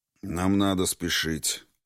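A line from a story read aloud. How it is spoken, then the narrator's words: Gloomy conclusion. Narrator (Russian): мрачно заключил Квинт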